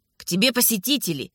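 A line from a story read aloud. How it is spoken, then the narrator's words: Guard's grumbling voice. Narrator (Russian): проворчал голос охранника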